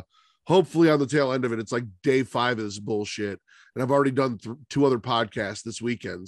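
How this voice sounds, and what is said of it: Stuffy congested voice. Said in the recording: “I am getting over a cold, so I know I'm a little stuffy. My voice might crack a little bit.”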